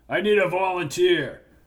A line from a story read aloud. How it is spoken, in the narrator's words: Sarge said loudly